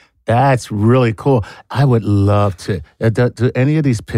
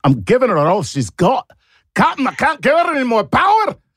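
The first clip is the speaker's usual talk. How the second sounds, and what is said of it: Put-on Scottish accent. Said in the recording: “Scottish accent”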